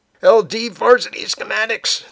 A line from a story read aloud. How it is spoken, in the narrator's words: the novice cries as his chin meets the cafeteria floor